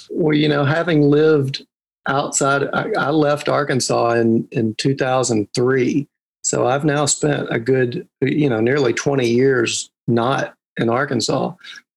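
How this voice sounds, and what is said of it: Gentle Southern American accent. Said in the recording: “I want to do a lovely, gentle Southern accent like yours.”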